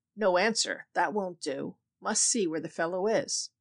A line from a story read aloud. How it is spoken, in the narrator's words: the voice grumbled